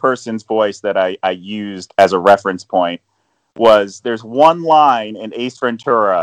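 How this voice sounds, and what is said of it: Usual voice. Nothing is said of it.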